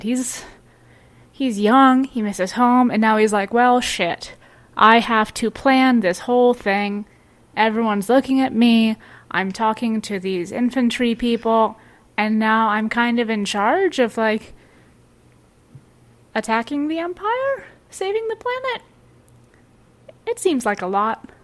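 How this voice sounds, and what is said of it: Slight regional character accent. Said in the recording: “your Merlin accent came out a little bit there, and it was very enjoyable ... I'm all here for regional accents.”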